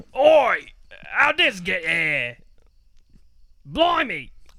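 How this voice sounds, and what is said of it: Put-on British accent. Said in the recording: “A British accent.”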